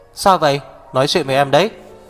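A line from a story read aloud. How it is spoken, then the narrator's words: Loud. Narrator (Vietnamese): Hạc Viêm Triệt lớn tiếng nói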